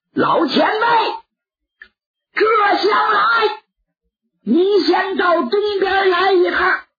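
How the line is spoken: Shouting out. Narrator (Chinese): 蒋平就喊开了

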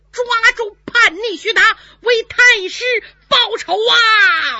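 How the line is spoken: Shout. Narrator (Chinese): 不知有谁喊了一声

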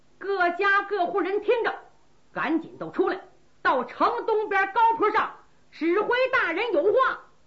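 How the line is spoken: Soldier shouting loudly. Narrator (Chinese): 努尔哈赤的军卒高喊

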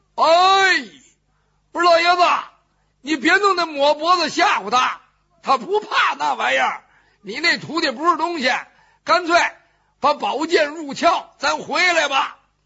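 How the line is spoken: Shouting. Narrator (Chinese): 身后边程咬金跟着喊上了

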